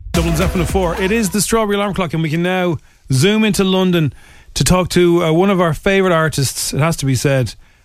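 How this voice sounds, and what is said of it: Irish accent. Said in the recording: “It's good to hear an Irish accent.”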